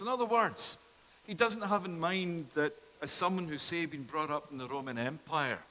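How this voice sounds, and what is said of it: Scottish accent. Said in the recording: “as my accent tonight tells you, that I'm not by birth Canadian, but it is that I come from Scotland”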